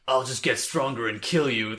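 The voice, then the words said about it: Poor Karasu impression. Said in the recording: “That was not a good Karasu impression.”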